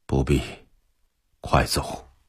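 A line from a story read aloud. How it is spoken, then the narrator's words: Hoarse. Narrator (Chinese): 真金 用沙哑的声音说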